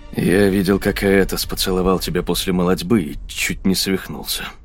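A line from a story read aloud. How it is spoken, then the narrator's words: Grumbling. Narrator (Russian): проворчал он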